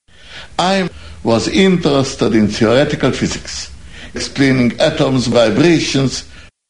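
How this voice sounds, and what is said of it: German or Austrian accent. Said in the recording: “I love that accent. ... What about the German accent, though? Come on. Or is it Austrian or something?”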